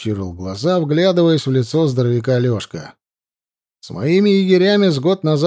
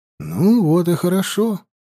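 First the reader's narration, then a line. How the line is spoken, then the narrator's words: Soft, smiling. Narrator (Russian): мягко улыбнулся Лёшка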